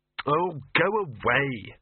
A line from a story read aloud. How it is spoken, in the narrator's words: snapped Victor